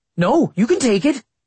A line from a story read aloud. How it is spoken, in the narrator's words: Austin said eagerly